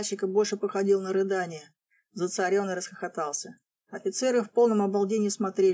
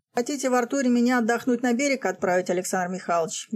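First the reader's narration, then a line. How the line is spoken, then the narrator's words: Cheerful. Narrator (Russian): весело оглянулся зацаренный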